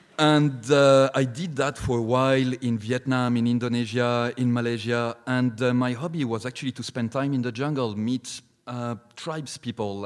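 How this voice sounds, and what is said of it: French accent. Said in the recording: “teaching French, which is not really surprising considering my accent.”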